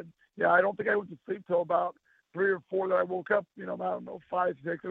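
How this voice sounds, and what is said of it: Tired, worn-out voice. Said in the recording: “my voice is going a little bit. I'm a little bit exhausted”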